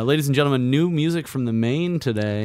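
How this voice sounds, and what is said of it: Announcer-style radio voice. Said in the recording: “got the radio voice”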